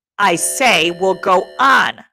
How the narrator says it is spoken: shouted Ralph furiously

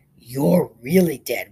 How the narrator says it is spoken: whispered little Charlie Bellows

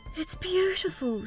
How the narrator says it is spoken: gasped

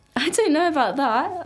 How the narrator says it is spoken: I laugh

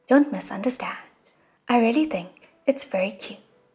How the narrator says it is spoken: Shilin quickly said

